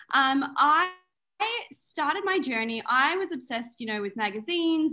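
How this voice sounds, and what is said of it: Australian accent. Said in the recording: “I'm originally from Melbourne, Australia, as some of your listeners might pick up on... your beautiful accent”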